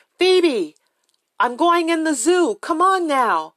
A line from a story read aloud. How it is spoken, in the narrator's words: yelled over to her